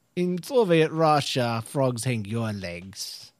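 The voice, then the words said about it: Deliberately bad put-on accent. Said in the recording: “It's the worst accent ever.”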